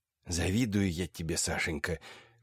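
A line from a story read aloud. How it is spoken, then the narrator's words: Whispered. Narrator (Russian): шепнул Андрей Артемьевич племяннику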